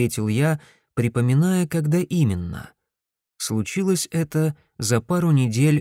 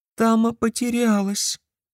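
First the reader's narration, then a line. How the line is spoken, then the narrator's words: Thin little voice. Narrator (Russian): сказала тоненьким голоском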